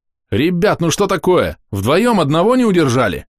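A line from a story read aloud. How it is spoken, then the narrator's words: Shouted. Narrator (Russian): крикнул я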